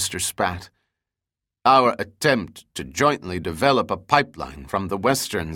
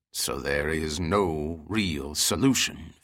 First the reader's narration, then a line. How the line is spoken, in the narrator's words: Fay grumbled, his anger still simmering